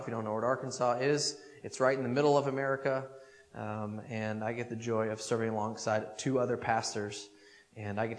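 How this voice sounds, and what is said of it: American accent. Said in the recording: “I don't have the accent. I have my own American accent”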